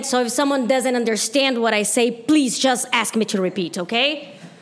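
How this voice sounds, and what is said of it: Brazilian accent in English. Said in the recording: “I'm from Brazil. That's why I have an accent.”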